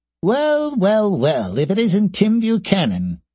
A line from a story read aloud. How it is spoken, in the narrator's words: came a slightly high-pitched, squeaky voice